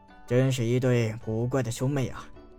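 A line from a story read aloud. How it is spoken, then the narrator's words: Sighing old man. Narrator (Chinese): 收费的老人 叹道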